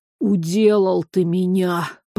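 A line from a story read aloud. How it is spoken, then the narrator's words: Hoarse wheeze. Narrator (Russian): прохрипел фаттарец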